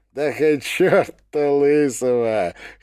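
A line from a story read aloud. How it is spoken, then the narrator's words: Short laugh. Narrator (Russian): хохотнул Чига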